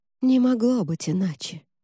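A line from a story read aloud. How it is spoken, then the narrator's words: Sigh. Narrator (Russian): вздохнула Латиза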